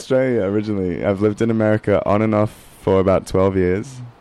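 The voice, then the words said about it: Australian accent. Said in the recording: “Now that accent of yours ... You're from Australia”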